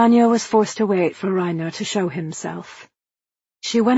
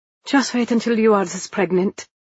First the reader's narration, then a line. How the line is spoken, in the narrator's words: Anya replied, more harshly than she intended